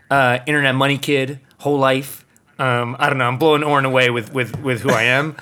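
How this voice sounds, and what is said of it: Raspy New York accent. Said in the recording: “You can hear it in my gutter raspy New York swag in my voice. I'm a true New Yorker”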